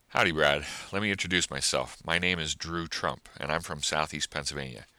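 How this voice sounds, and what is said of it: Smooth, polished radio-style voice. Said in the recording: “You have a great radio voice. You sound really good.”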